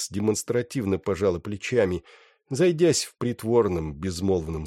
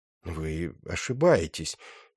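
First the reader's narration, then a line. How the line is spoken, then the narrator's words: Uncertain. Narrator (Russian): неуверенно сказал Флорин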